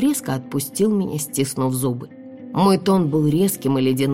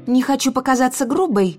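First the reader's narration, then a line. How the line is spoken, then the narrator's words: Irritated voice from cocoon. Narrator (Russian): раздраженно произнесли из прозрачного кокона в центре комнаты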